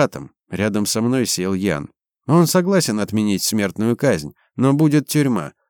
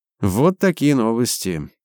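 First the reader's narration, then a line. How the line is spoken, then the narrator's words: Sad sigh. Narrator (Russian): продолжил Ян и грустно вздохнул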